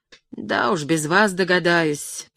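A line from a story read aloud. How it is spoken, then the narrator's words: Grumbling. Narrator (Russian): проворчала она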